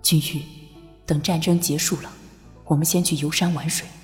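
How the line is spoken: Tender, honeyed. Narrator (Chinese): 拓桑的柔声蜜语

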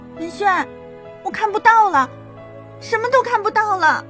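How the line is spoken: Screamed. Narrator (Chinese): 尖叫出声

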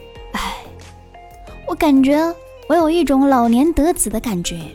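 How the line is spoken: Long sigh. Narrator (Chinese): 长叹一声

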